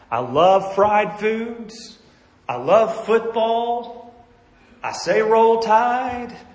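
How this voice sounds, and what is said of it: Alabama Southern accent. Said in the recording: “I'm from Birmingham, Alabama ... I got this crazy accent.”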